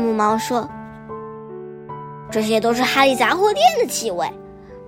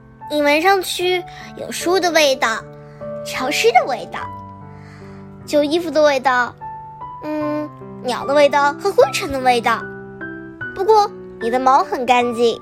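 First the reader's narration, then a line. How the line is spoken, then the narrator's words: Smiling. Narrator (Chinese): 布布丽娜笑了笑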